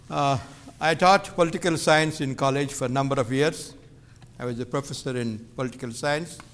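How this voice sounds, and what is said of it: Indian-accented English. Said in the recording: “my Indian accent”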